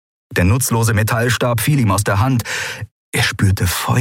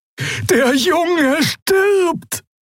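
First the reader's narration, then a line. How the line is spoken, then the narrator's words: Shouting at someone. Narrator (German): schrie Xea die Schattenfrau an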